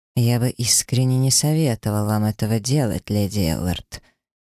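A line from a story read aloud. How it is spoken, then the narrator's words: Quiet, sinister dragon voice. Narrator (Russian): тихим, но зловещим тоном произнес дракон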